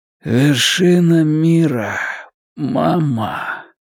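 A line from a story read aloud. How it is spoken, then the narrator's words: Hoarse croak. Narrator (Russian): Гарольд прохрипел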